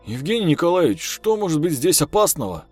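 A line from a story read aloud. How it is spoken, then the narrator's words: Nasty giggle. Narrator (Russian): Полицейский противно хихикнул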